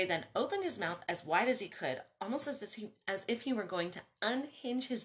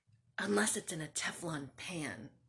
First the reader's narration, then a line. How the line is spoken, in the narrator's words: he whispered